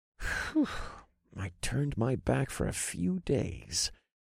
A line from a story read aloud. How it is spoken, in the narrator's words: muttered to myself